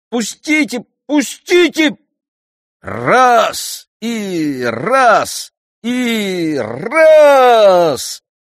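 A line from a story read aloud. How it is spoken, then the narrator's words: Chanted shout, tenor imitation. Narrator (Russian): Прокричал нараспев Перифой, вполне похоже на лирический тенор Орфея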